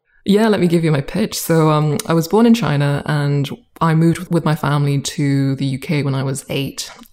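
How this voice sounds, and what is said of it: British accent. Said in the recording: “You've got this wonderful British accent”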